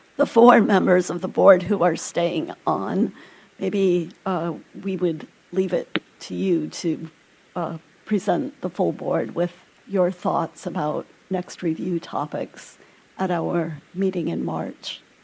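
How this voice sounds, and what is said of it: Strained, hoarse, failing voice. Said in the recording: “I'm losing my voice.”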